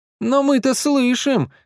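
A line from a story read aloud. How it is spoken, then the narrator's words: Pleading, two voices. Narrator (Russian): взмолились Саша и Паша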